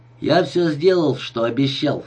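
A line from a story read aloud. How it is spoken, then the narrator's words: Plain. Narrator (Russian): сказал ему Мендета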